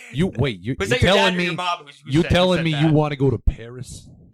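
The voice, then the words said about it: Exaggerated Brooklyn accent. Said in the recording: “That's my shit Brooklyn accent. That's my shit Brooklyn accent.”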